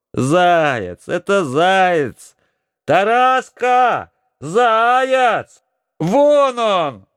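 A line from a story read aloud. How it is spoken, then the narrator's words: Excited shouting. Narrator (Russian): кричала Ольгушка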